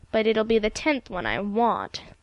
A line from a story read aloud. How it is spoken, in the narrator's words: persisted Ilse gloomily